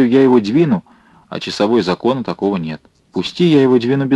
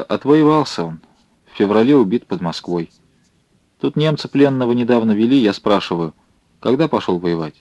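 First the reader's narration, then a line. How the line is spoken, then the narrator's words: Calm woman. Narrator (Russian): Женщина спокойно проговорила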